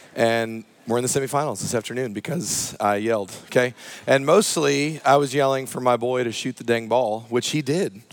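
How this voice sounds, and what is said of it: Hoarse voice with cracks. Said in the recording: “My voice is a little hoarse, and I'm having some voice cracks this morning”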